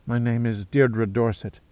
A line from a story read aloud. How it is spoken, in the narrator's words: she whispered nervously